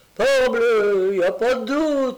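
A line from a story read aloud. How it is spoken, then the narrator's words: Exclaimed. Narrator (French): s'écria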